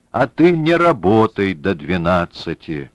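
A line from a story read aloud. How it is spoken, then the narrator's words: Deep bass. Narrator (Russian): пробасил Двоетесов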